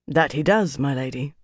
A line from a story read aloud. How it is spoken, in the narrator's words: Adorian murmured